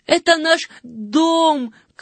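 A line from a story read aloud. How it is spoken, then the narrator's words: Breathless shout. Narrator (Russian): крикнул запыхавшийся Жан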